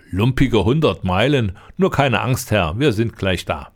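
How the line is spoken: Laughing. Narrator (German): Da lachte der Lange

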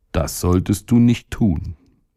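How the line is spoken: Calm stomach. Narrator (German): sagte der Magen ruhig

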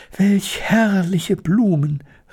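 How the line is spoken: Exclaiming. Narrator (German): rief Elli

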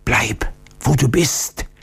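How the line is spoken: Old man's warning whisper. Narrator (German): flüsterte der alte Octiondo warnend zu

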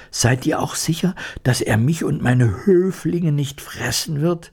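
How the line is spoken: Fearful question. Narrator (German): Die Mäusekönigin fragte ängstlich

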